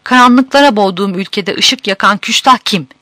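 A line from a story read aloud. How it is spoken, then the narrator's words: Shouting. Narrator (Turkish): diye bağırarak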